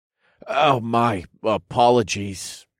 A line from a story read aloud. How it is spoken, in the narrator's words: I murmured